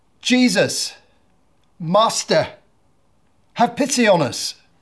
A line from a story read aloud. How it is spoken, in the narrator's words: called out in a loud voice